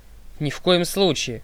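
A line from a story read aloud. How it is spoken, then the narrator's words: Snort. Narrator (Russian): фыркнул мистер Д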